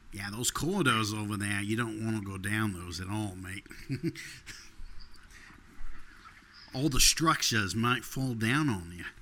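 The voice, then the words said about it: Put-on rural Australian accent. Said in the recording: “you got to make it all Australian ... the accent you're doing is more like the kind of country New South Wales accent”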